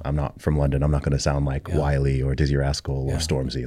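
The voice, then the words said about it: American-sounding accent. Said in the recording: “American accent”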